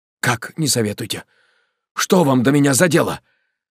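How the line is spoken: Sharp objection. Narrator (Russian): возразил Александр Егорович резким тоном

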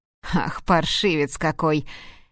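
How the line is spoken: Laughing. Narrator (Russian): рассмеялся Томас

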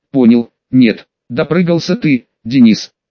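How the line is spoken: Through gritted teeth. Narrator (Russian): сквозь зубы процедил танкист

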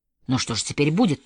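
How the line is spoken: Confused mutter. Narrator (Russian): пробормотал в замешательстве Родди

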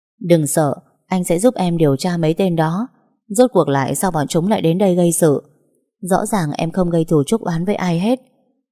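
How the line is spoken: Smiling, reassuring. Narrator (Vietnamese): Anh liền mỉm cười trấn an

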